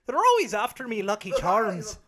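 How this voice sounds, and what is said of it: Cereal mascot leprechaun voice. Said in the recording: “What's the Scottish accent? ... I always think of the Lucky Charms guy.”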